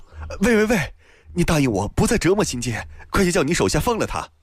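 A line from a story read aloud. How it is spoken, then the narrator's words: Shouting. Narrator (Chinese): 王翰叫道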